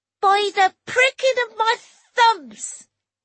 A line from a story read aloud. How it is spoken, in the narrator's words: he roared